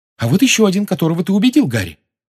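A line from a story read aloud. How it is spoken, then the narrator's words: Excited exclamation. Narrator (Russian): возбужденно воскликнула Гермиона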